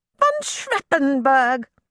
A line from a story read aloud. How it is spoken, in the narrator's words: exclaimed